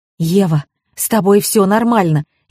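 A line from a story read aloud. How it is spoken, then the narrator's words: Frightened whisper. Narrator (Russian): испуганно зашептала она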